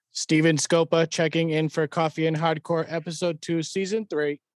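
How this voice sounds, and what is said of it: Robot voice. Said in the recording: “do a robot voice.”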